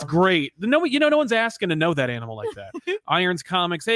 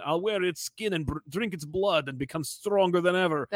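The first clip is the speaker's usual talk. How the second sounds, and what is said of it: Bad put-on Russian accent. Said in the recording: “in a bad Russian accent,”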